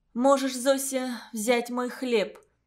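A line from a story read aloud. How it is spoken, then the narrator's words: Trembling voice in silence. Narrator (Russian): дрожащим голосом предложила Целина среди гробовой тишины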